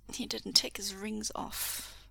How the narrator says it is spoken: he mumbles

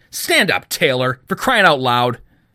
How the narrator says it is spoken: he spat

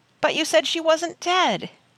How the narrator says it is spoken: He cried out in pain

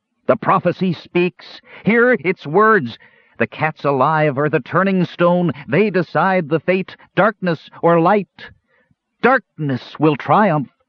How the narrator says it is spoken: He faltered, then shouted

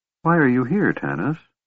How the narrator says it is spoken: she asked softly

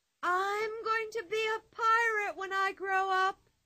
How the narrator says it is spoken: she cried

